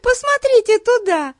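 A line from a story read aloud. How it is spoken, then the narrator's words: Giggling. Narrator (Russian): хихикнула Бетси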